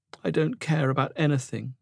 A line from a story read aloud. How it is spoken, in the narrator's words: Ollo sobbed